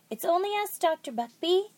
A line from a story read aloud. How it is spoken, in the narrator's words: Jack cried, but he couldn't be heard over the blare of the horn